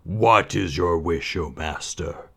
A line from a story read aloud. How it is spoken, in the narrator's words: the genie asked in a voice that rumbled like the heart of a volcano